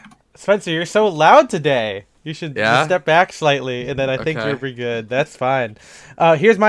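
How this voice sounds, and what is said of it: Usual voice. Nothing is said of it.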